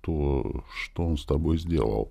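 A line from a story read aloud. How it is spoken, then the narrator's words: Barely audible whisper. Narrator (Russian): прошептал чуть слышно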